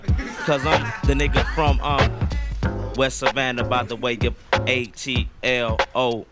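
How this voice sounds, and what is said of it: Southern country accent. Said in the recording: “the way I got this country accent”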